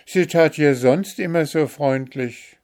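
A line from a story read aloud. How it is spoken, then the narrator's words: Calling out. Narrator (German): rief Märchen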